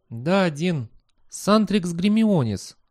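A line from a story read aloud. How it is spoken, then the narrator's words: Sighing. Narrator (Russian): она вздохнула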